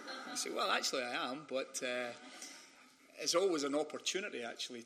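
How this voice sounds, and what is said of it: Scottish accent. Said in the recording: “when you have a Scottish accent ... people immediately will point out my accent”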